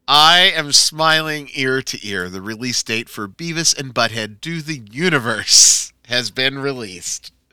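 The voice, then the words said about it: Slightly raspy voice. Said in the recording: “I'm a little raspy this week”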